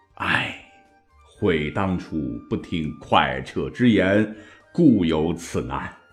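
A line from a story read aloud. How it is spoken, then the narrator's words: Long helpless sigh. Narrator (Chinese): 韩信啊，无奈的长叹一声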